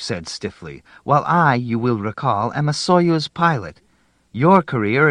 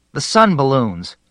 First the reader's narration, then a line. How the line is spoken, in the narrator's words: cried Grishkin